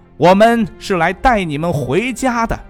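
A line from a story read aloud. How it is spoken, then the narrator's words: Soldiers loudly warning. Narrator (Chinese): 士兵们用希伯来文大声地警告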